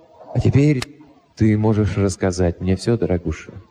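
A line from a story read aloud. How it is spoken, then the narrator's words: Soft. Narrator (Russian): мягко добавил я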